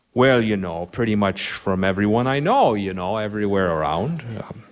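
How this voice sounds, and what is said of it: Minnesota accent. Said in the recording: “I have a Minnesota accent ... it sounds like a drunk Swede learning how to speak English”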